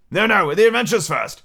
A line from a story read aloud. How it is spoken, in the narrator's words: said the griffin in an impatient tone